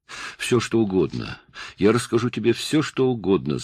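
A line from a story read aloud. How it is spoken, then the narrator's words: Babbling through sobs. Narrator (Russian): залепетал он голосом, прерывающимся от непроизвольных рыданий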